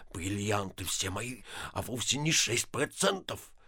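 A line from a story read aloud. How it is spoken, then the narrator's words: Sullen mumbling. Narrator (Russian): Ипполит Матвеевич насупился и, бормоча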